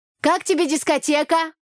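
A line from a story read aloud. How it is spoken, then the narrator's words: Shouting into ear. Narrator (Russian): прокричала я парню в ухо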